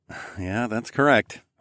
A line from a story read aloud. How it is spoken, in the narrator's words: I muttered